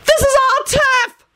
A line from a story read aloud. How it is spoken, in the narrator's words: the remaining green-faced woman screamed shrilly